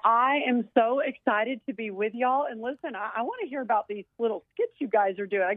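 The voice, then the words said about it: Southern US accent. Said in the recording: “I'm picking up this great Southern accent. Is this a Tennessee accent”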